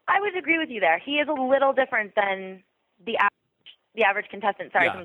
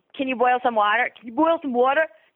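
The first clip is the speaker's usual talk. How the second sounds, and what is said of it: Bossy thick New York accent. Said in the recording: “He's got a thick New York accent ... it sounds super bossy ... It just sounds like you're directing someone”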